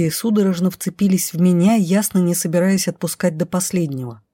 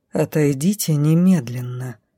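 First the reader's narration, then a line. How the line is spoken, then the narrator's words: Cold, through gritted teeth. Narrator (Russian): холодно процедил сквозь зубы дроу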